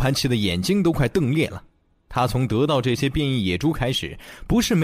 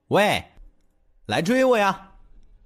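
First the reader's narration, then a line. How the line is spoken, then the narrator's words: Loud laughing taunt. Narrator (Chinese): 小虎一咧嘴，嘿嘿一笑……一边跑还一边大声的叫嚣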